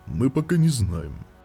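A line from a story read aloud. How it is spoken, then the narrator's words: Plain. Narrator (Russian): ответил Велунд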